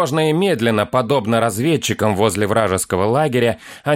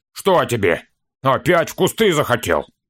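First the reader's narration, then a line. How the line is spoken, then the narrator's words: Curt, angry, dwarf language. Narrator (Russian): отрывисто зло сказал что-то на языке карликов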